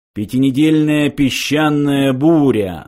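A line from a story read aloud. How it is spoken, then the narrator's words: Computer's mocking echo question. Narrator (Russian): насмешливо переспросил компьютер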